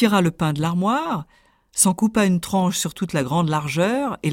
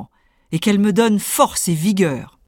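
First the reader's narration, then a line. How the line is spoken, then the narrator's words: Greedy little tailor exclaiming. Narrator (French): s'exclama le petit tailleur gourmand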